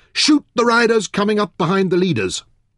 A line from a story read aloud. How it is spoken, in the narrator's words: shouted